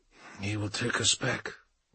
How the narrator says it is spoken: muttered Bjorn, seeing the inevitability of it

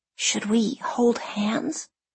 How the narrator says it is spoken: Jenna whispers

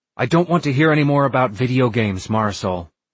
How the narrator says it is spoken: snapped John

